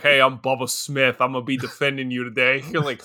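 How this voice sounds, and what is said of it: Deep New York accent. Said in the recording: “deep New York accent”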